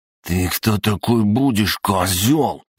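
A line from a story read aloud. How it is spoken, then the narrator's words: Contemptuous hiss. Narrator (Russian): прошипел мажор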